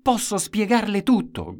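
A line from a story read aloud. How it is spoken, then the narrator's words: Shouting. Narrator (Italian): gridava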